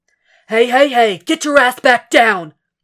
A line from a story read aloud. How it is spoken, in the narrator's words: Frank barks